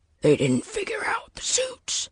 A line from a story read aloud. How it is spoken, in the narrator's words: Walker hissed, still breathless from his ordeal